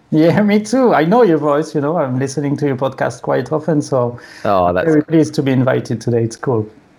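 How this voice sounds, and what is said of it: French accent. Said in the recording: “It's not a sexy voice ... that's a French accent, maybe. ... It is a very cool accent.”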